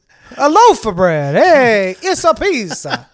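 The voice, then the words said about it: Put-on Italian accent. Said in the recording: “That's Italian. That was not an Israeli accent you just busted out right there.”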